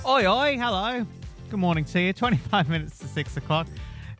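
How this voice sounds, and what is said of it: Put-on Cockney accent. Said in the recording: “Inexplicable desire to do a Cockney accent this morning.”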